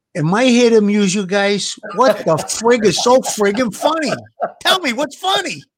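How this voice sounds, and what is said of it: Tough-guy Brooklyn accent impression. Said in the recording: “he's not just a Joe Pesci lookalike ... he's got that Brooklyn accent.”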